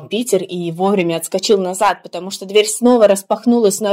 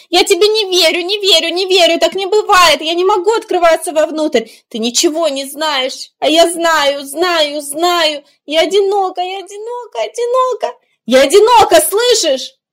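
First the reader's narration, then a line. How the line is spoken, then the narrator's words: Defiant, menacing shout from door. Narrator (Russian): дверь выкрикнула с каким-то вызовом, даже грозой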